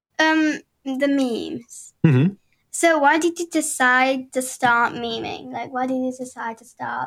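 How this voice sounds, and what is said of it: British accent. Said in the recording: “another Britcoiner, by the way. You can probably hear in the accent.”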